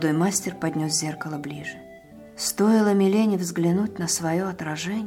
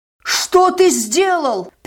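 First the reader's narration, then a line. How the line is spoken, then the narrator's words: Yelling. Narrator (Russian): заорал он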